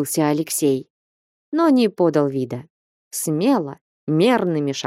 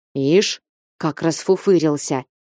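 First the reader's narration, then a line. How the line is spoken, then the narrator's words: Grumbling. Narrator (Russian): продолжал ворчать картуз с галуном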